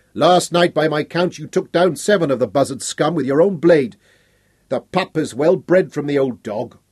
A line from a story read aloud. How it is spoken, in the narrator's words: Then another cried